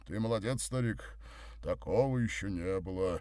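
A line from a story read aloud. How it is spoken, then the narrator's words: Deep bass voice. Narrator (Russian): пробасил он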